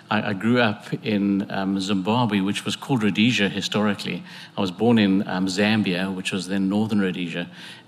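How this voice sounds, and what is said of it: English accent, Queen's English. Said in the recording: “I'm actually not English and I'm not Scots... picked up my English accent... I actually spoke in the Queen's English”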